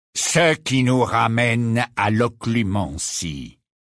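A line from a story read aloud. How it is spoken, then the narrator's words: Cold, indifferent tone. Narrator (French): dit Rogue d'un ton froid et indifférent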